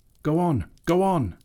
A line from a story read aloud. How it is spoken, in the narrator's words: he shouted